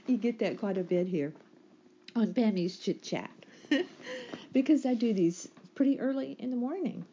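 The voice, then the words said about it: Early morning voice. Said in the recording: “my voice has that early morning voice sound to it”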